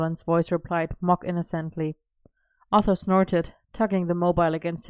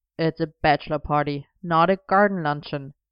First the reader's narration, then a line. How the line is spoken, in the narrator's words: Arthur pointed out with a snort